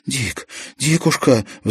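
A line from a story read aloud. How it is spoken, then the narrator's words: Pleading. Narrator (Russian): взмолилась Марьяна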